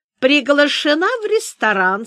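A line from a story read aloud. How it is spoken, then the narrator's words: Tender. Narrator (Russian): сказала ласково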